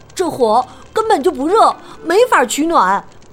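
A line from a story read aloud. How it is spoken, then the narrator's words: Shouting. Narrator (Chinese): 马丁叫道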